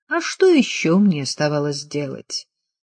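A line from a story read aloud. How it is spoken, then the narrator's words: Dry question. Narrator (Russian): сухо спросил он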